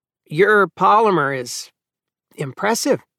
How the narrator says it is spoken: Finnis was saying to Vashti in a superlatively unimpressed voice

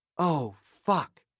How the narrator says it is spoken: said quietly

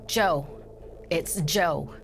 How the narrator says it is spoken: he stammered

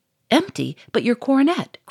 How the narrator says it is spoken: cried the Duke

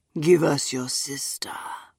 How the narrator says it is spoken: the dead woman said, dropping her voice again

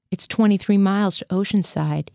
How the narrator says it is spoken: he said

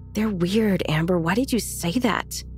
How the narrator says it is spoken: Will loudly whispered

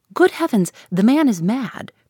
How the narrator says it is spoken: cried the gentleman, whose manner had entirely lost its airiness

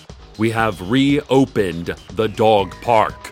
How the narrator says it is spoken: the city council shouted

